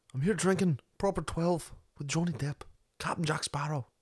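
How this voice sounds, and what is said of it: Irish accent impression. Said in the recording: “That wasn't a half bad impression. ... You do an Irish impression.”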